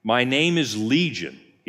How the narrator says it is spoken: he replied

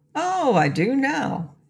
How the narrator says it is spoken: he replied cheerfully

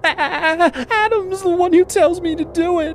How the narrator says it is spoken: she said, her voice blubbering

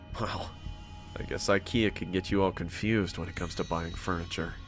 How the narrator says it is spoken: I murmured to myself

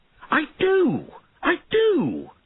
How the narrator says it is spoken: Einan shouted

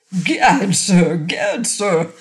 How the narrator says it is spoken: spluttered the Skookum Bench King

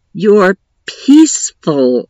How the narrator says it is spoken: I growled as quietly as I could

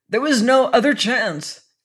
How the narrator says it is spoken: cried Blood in a broken-hearted frenzy

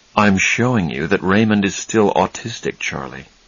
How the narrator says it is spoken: he said calmly

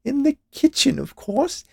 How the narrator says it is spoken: she added with a laugh, as if it was the funniest thing anyone had ever said

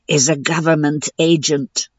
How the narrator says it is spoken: said Jasbo's hissing voice

